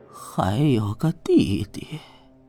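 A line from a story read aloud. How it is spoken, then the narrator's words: Reluctant sigh. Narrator (Chinese): 汤钦似有不甘，叹气道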